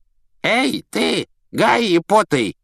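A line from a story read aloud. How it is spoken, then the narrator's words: Creaky rasp. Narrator (Russian): проскрипел он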